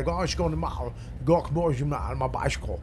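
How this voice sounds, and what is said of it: Put-on South African accent. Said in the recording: “South African roommate ... he had this crazy accent”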